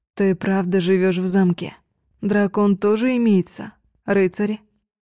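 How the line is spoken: Plain. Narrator (Russian): спросила Дюре

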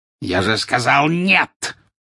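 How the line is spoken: Harsh bark. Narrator (Russian): рявкнул жестоколицый

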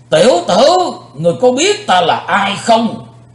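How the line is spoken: Angry echoing shout. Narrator (Vietnamese): Vị tà thần như nổi giận quát chấn động bốn bề vách đá

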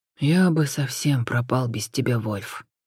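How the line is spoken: Quiet reply. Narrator (Russian): тихо отозвался Джон

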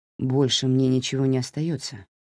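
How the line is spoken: Quiet, pleading. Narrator (Russian): тихо сказал он, в его голосе сквозят умоляющие нотки

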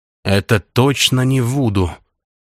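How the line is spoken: Muttered. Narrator (Russian): пробормотал Кирилл

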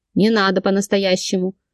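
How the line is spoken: Grumbling. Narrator (Russian): проворчала я

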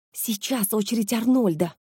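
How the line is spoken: Loud whisper. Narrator (Russian): громкий шепот

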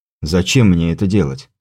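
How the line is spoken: Calm, smiling. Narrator (Russian): спокойно улыбнулся я

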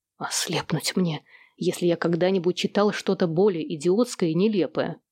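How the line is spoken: Displeased grumble. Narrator (Russian): Недовольно буркнул Сэм

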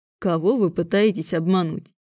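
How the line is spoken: Amused snort. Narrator (Russian): фыркнул он, глядя на меня с веселым изумлением

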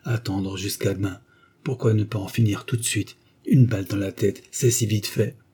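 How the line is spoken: Murmured. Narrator (French): murmura-t-il

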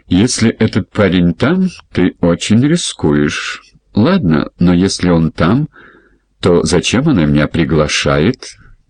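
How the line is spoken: Laughing. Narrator (Russian): Тони засмеялся

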